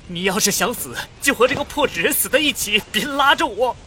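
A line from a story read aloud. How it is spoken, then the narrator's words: Shouting. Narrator (Chinese): 我对着他大喊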